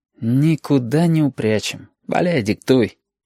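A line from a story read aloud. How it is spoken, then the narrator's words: Sigh. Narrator (Russian): вздохнул Абов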